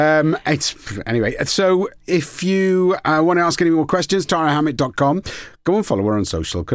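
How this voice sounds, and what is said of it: Usual voice. Nothing is said of it.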